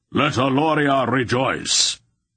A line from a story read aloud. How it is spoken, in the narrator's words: Beldrath called out in a voice like thunder